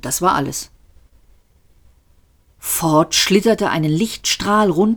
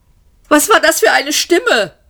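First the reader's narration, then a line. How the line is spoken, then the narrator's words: Shouted. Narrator (German): schrie Arthur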